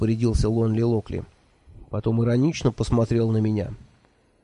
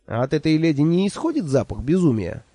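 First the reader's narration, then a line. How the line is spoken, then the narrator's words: Snide question. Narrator (Russian): ехидно поинтересовался я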